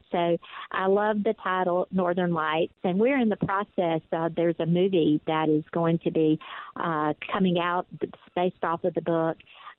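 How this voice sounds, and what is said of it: Deep Southern US accent. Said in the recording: “you could tell from my accent that I am from the deep, deep, deep south”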